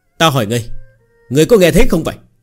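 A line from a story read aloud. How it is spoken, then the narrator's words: Slightly annoyed. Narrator (Vietnamese): Người kia hơi tức giận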